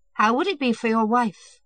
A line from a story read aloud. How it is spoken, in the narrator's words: Yashvin laughed